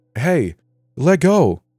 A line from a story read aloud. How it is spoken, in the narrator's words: I said loudly